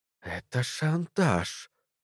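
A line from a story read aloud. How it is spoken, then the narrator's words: Forced out reluctantly. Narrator (Russian): выдавила из себя Кэрмоут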